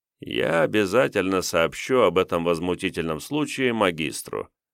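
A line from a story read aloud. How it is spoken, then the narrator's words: Bored voice. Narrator (Russian): скучным голосом произнес принц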